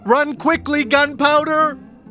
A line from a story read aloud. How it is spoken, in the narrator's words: Ichabod shouts